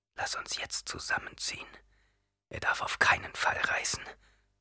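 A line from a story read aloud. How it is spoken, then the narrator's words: Whispered. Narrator (German): flüsterte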